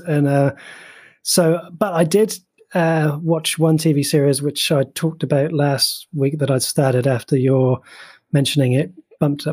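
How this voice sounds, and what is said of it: Sick, under-the-weather voice. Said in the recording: “hear it in my voice. I've been actually been a bit crooked this week... under the weather”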